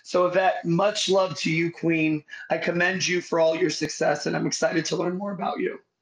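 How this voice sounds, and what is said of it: Voice sounds unwell, not at full. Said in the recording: “sorry about your voice. I really do hope it gets better to 100% soon.”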